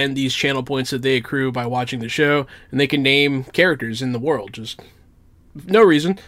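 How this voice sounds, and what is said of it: Usual voice. Nothing is said of it.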